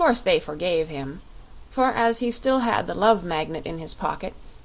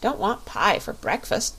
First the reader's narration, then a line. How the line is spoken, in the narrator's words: said Button-Bright